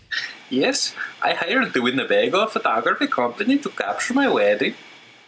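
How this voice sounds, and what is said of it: Put-on slightly Swedish accent. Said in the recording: “I don't even know what accent that was. ... It was like a little bit Swedish. But I mean, like Wisconsin and Minnesota were settled by the Nordics”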